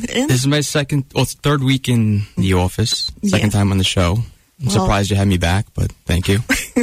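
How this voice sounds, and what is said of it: Noticeable regional accent. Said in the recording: “We'd love to hear your accent. ... It's all about the accent. ... if you just keep saying talk, it's great”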